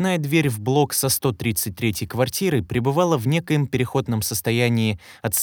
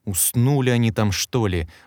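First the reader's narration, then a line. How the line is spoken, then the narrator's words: Irritated muttering. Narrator (Russian): раздраженно адресовал в небытие короткое замечание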